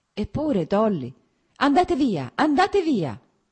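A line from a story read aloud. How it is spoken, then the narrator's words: Anguished shout, as if in pain. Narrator (Italian): gridò senza guardarlo, come se questo grido fosse provocato da un male fisico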